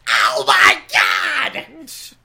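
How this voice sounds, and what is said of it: Joey Styles announcer impression. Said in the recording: “in my best Joey Styles voice”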